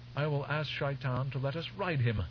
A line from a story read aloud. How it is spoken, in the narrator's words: Her voice rising in impudent arrogance, Shiana said